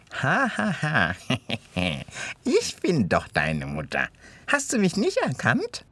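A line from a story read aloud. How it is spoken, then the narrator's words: Gloating snarling giggle. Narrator (German): kicherte die Aasfresserin schadenfroh und zähnefletschend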